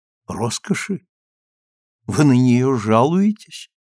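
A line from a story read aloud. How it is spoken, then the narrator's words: Calm, confident. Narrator (Russian): Она спокойно объяснилась, с непоколебимой уверенностью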